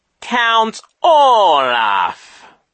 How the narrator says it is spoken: Genghis said slowly

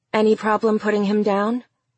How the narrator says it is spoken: Amber asked

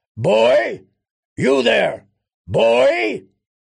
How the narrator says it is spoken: a booming voice called after him

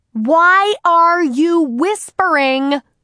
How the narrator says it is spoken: shouted Harriet

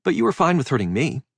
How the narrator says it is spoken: she said, and her voice was tight

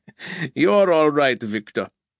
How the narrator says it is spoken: Grobka laughed

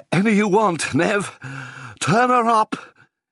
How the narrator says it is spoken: he cried, his face beaded with sweat

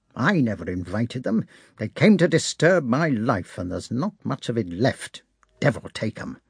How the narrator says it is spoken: he muttered, while his head was still covered by the shirt

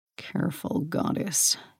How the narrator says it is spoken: Hades warned in a low growl

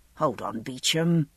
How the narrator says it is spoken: I muttered to myself

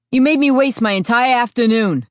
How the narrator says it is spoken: he shouted at her

